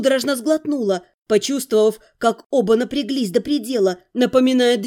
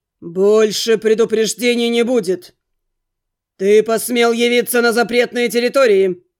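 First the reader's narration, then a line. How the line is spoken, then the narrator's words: Menacing guardian barking. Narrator (Russian): Грозно рявкнул в ответ хранитель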